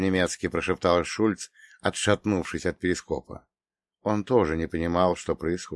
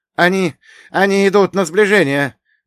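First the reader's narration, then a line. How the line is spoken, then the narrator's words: Shouted alarm, sonar operator. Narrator (Russian): закричал гидроакустик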